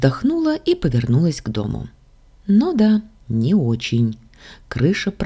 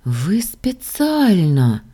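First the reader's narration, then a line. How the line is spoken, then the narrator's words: Through gritted teeth. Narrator (Russian): процедила я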